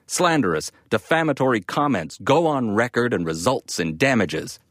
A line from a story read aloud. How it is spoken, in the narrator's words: shouting